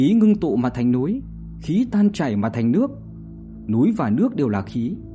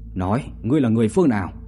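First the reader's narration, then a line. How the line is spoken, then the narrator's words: Stern. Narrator (Vietnamese): Bạch Thế Bảo nghiêm giọng mà nói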